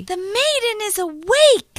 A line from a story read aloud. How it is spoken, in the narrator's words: he shouted